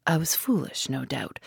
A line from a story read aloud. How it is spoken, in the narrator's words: murmured Inglethorpe